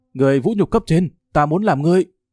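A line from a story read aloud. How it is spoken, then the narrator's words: Shouting, trampled underfoot. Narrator (Vietnamese): Địch Tương Hải bị dẫm nát dưới chân hét lớn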